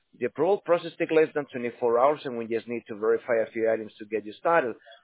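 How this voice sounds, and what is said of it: Central American accent. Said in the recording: “I like your accent ... I'm from Central America”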